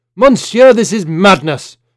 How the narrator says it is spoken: Georges cried, his shock subsiding

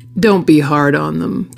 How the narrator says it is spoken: the man chuckled

